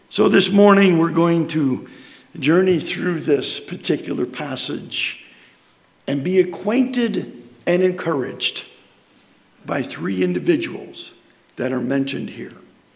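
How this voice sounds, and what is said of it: Hoarse, fading voice. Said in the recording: “I seem to be losing my voice ... Hopefully my tea with honey will soothe the raging beast.”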